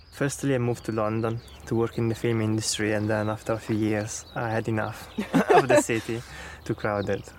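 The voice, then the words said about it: Italian accent in English. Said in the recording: “I'm guessing from your accents that you're not from round here ... we are both from Italy”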